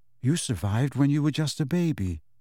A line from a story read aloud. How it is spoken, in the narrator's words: she said quietly